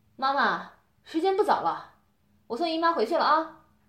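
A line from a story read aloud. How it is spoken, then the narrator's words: Calling out. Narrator (Chinese): 对卫生间喊道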